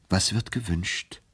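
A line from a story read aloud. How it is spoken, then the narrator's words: Gentle question. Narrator (German): fragte er sanft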